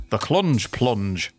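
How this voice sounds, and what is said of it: Put-on northern English accent. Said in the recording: “that one probably sounds better in a northern accent.”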